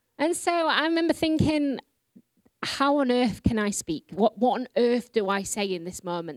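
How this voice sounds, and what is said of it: Yorkshire English accent. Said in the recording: “I speak with a Yorkshire accent. Yorkshire in England is like the equivalent of Alabama in America.”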